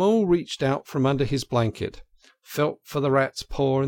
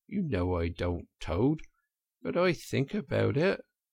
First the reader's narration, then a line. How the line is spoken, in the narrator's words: he added rather pathetically in a lower tone